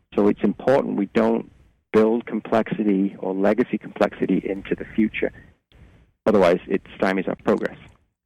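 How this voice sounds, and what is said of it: Slight British accent. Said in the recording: “You have a little bit of a British accent there”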